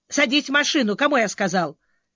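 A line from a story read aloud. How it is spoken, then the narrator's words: Barking. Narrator (Russian): Рявкнул Грей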